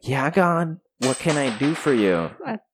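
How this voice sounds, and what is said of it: Imitates a movie character's voice. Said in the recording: “That's not how his voice sounds like. ... That's what he sounds like in heaven.”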